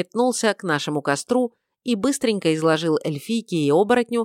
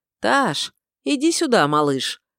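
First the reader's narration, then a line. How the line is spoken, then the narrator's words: Called tenderly. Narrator (Russian): ласково позвал я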